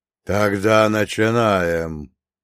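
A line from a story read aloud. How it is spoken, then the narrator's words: Roaring. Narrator (Russian): проревел первый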